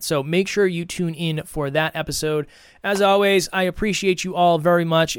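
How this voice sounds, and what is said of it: Strained, hoarse, fading voice. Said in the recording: “I'm losing my voice because I've been doing many episodes lately”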